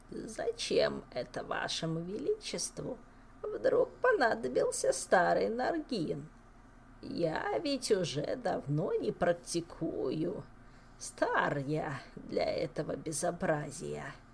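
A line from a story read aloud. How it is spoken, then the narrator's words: Creaky old man's voice. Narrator (Russian): Мэтр Наргин, сгорбленный лысый старичок, проскрипев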